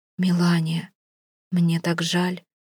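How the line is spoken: Soft whisper. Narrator (Russian): тихо шепчет Саманта

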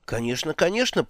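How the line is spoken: Stunned mutter. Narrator (Russian): пробормотала Магрот, ошеломленная той силой, с какой были произнесены эти слова

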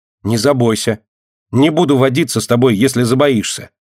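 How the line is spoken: Angry child shouting. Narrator (Russian): сердито кричит Динка

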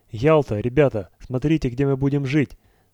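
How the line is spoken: Excited exclamation. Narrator (Russian): воскликнул Барбаров

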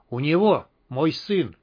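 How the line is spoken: Strangled, forced out. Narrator (Russian): выдавил придушенный Кремень

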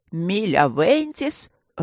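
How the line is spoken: Growled. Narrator (Russian): рыкнул Горни

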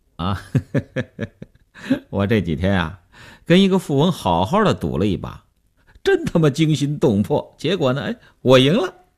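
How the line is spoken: Smiling. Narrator (Chinese): 刘文庆笑笑说

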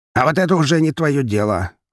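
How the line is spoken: Snapping. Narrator (Russian): огрызнулся Волков

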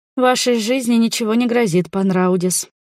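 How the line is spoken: Sighing reply. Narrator (Russian): ответила она, вздохнув

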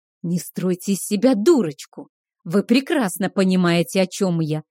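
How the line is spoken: Hiss. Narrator (Russian): прошипел Кейхар

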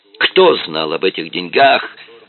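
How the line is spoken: Nervous shout. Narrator (Russian): закричал он нервно

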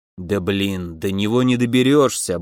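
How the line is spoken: Gnome grumbling. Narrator (Russian): буркнул гном

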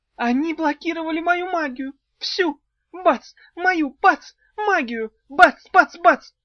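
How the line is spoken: Sudden shriek, fairy. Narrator (Russian): завопила вдруг фея

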